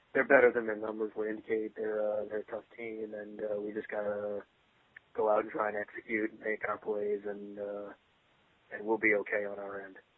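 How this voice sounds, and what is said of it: Flat, bland coach-style impression. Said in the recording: “answer in the most bland, platitude way imaginable. ... do a Bill Belichick impression.”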